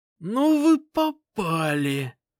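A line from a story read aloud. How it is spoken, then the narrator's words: Strangled wheeze. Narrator (Russian): просипел парень сдавленным голосом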